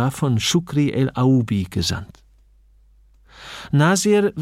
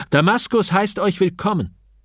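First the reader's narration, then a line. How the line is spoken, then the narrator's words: Called out. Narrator (German): rief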